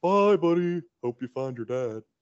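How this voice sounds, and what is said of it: Imitates a cartoon narwhal character's voice. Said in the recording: “That was a good impression of Mr. Narwhal.”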